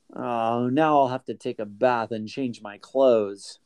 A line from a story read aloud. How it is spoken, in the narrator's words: Jimmy grumbled